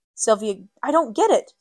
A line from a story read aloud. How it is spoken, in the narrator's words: Sylvia cried out